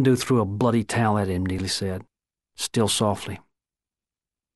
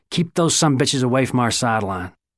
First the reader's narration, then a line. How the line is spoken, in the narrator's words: Silo yelling at him